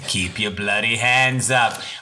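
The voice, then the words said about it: Weak put-on Australian accent. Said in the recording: “I don't do a very good Aussie accent.”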